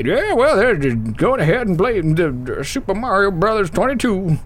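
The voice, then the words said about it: Put-on old man voice. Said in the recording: “that's my only old man voice”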